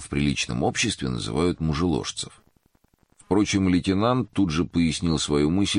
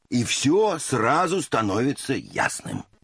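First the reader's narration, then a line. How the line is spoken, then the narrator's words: Exclaiming. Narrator (Russian): воскликнул Эндлунг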